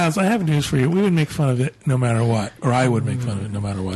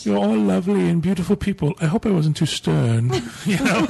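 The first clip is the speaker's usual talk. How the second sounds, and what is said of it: Put-on English accent. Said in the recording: “This is my English accent. ... That was his English/Australian/New Zealand accent.”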